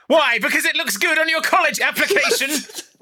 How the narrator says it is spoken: He screams

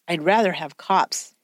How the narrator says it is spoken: Jagger said

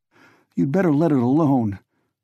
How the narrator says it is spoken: Andy said shakily

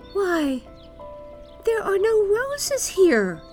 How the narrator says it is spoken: cried Gerda

